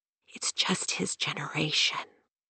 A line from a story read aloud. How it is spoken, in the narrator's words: Her mother, always subservient, whispered over and over